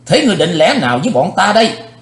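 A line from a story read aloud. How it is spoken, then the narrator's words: Loud bark. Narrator (Vietnamese): Thiếu giáo chủ âm ma đỏ nạt lớn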